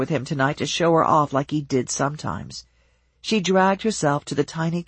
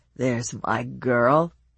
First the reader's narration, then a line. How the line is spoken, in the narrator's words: he said, his voice slurred